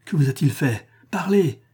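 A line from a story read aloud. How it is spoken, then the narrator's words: Impatient exclamation. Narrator (French): s'écria Arcadius presque à bout de patience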